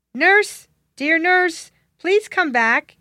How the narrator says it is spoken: he called out

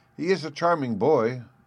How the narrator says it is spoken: exclaimed

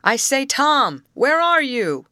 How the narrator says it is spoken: he called loudly

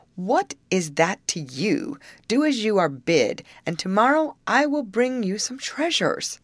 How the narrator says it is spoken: he answered crossly

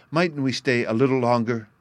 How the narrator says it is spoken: pleaded Sylvie

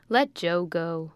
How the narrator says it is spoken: said his father, laughing

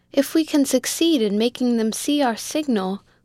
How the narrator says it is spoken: cried Mulford

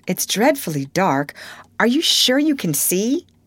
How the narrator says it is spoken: He laughed contemptuously

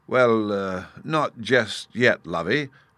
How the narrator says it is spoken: her husband uneasily replied

